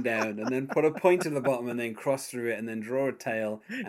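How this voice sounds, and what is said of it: British accent. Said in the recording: “my accent ... a British accent”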